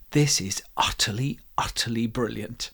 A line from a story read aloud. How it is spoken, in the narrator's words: the teacher came up to me and whispered in my ear